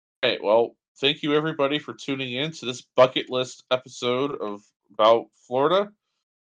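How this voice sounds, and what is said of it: Worn-out, strained voice. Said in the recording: “My voice is done.”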